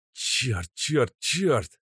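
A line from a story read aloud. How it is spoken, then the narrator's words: Hissing. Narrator (Russian): зашипел Костя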